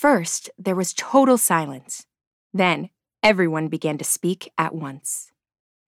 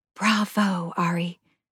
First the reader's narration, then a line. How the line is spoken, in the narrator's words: whispered Mariah softly from behind him